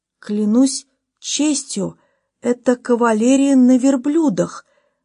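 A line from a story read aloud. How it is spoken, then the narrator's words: Excited exclamation. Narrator (Russian): воскликнул полковник Кохран, позабыв обо всех своих невзгодах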